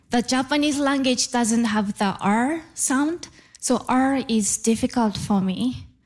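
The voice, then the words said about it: Japanese accent in English. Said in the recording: “explains her challenge with accents. She's originally from Japan ... I still have a Japanese accent.”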